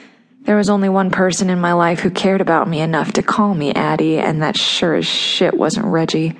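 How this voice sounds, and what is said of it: Usual voice. Nothing is said of it.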